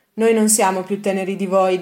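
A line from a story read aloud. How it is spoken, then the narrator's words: Plain. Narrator (Italian): disse Milton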